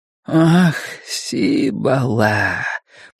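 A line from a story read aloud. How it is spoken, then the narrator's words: Purring. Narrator (Russian): промурлыкал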